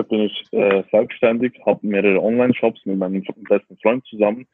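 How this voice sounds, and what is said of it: Swiss German accent. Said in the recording (German): “auch mit Schweizer Akzent ... Schweizer Akzent.”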